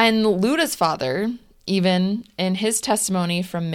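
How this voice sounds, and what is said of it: Usual voice. Nothing is said of it.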